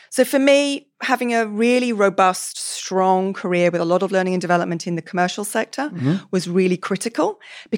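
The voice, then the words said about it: British English accent. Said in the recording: “That accent's not from this part of the woods ... I grew up in the UK. So I was born actually on the edge of London.”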